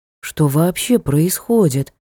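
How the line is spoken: Whispered question. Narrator (Russian): шепотом спросил Ник

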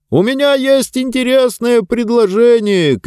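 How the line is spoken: Shout. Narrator (Russian): кричал человек

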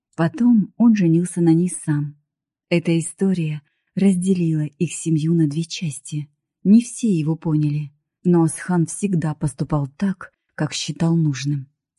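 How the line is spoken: Calm. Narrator (Russian): спокойно закончил Таймур

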